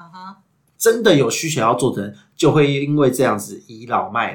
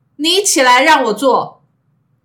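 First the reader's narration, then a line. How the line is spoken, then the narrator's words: Brash and very loud. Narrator (Chinese): 非常的大咧咧的呢，而且非常大声的说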